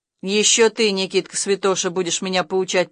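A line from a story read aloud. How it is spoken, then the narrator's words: Grumbling. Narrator (Russian): проворчал Влас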